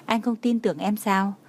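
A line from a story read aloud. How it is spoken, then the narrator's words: Smiling. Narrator (Vietnamese): Trang Hạo Nhiên ... mỉm cười nhìn cô nói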